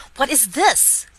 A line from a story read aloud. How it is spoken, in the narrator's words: cried Mr